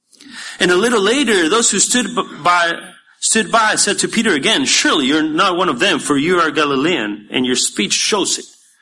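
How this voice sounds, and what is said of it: Non-American English accent. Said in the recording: “You can tell I'm not American by my accent”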